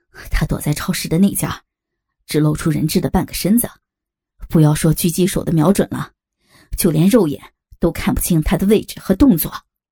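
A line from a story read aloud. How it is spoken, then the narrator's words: Breathless report. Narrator (Chinese): 一个警员气喘吁吁的跑回来报告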